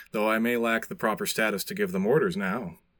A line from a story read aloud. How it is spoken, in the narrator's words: Aetius replies smoothly